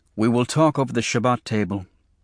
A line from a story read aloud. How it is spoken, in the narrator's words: my father said